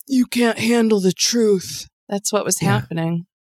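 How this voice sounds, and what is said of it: Weak, half-hearted masculine impression. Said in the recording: “that was a good impression ... No, not really ... I didn't lean into it because I didn't want to come off too masculine”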